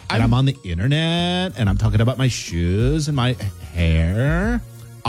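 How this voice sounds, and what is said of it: Valley Girl voice. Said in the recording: “I think we used to call this the Valley Girl accent ... Valley Girl, you know, like this. ... It's pretty spot on to Valley Girl, I think.”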